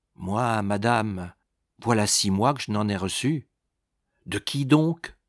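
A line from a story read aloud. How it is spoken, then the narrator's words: Gentle reply. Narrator (French): La servante répliqua doucement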